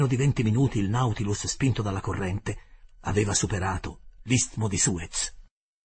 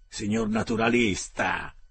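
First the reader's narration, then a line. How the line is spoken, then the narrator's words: Mocking tone. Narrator (Italian): mi disse in tono canzonatorio il canadese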